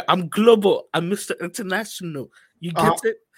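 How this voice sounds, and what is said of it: Put-on accent. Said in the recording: “What was that? That accent was,”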